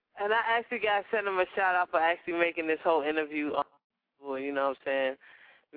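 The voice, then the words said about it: Nigerian accent. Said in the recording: “you got an accent. ... I'm African. I'm Nigerian”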